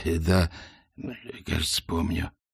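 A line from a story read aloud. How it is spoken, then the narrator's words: Hoarse wheeze. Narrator (Russian): прохрипел волшебник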